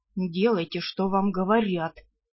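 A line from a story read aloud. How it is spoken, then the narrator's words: Vampire's growl. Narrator (Russian): рыкнул вампир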